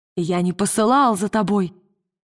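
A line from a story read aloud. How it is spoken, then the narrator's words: Shouting. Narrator (Russian): он крикнул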